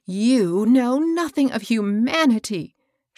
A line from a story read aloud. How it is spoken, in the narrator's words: cried, with flashing eyes